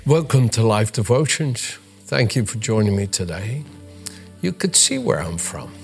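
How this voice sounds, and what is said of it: Dutch accent mixed with American English. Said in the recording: “my accent being a mixture of Dutch from Holland ... having learned English ... in the United States ... I've learned English in an American way”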